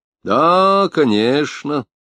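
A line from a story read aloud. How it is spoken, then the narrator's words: Drawling. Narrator (Russian): протянул Самонов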